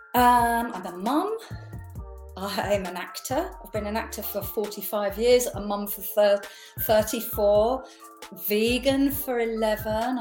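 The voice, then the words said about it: English accent with slight Essex twang. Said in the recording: “I noticed the accent... I was born in Radlett in Hertfordshire, and then I moved to Essex. So you might hear a little twang of that.”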